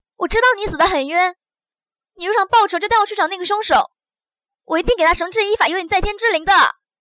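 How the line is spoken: Loud. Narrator (Chinese): 大声的说道

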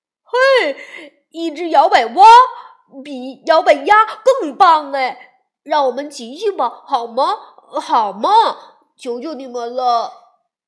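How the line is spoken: Loud excited children. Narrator (Chinese): 小熊妹妹已经大声喊起来，小熊哥哥也叫了起来

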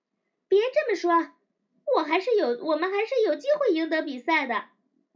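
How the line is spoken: Loud shout. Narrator (Chinese): 我大声喊着

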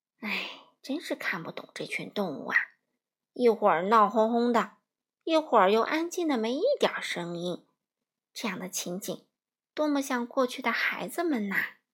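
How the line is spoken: Sighing exclamation. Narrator (Chinese): 他感叹道

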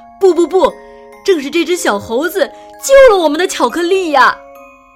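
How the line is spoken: Workers praising. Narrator (Chinese): 工人们夸奖道

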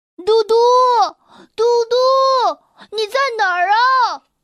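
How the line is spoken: Calling out. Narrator (Chinese): 他喊着

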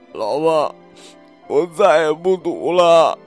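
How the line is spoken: Crying. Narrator (Chinese): 刘麦哭

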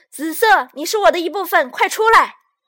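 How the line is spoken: Loud shouting. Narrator (Chinese): 红色……大声嚷嚷道

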